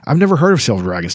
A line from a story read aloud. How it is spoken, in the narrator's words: Tanis replied